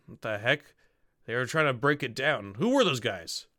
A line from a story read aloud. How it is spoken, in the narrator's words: You hear him muttering